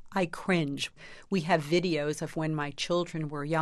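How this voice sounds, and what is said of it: Usual voice. Nothing is said of it.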